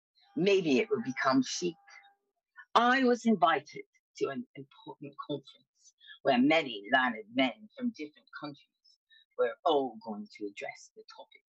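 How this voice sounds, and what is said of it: Fake British accent. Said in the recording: “the fake British accent”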